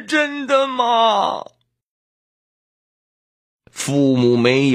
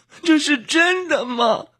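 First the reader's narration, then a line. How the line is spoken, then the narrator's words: Crying question. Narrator (Chinese): 她 哭着问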